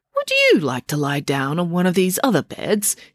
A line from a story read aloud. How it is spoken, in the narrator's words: he asked kindly